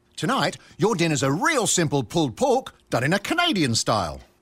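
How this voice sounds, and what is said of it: Speaks with a put-on accent. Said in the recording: “why do you have an accent?”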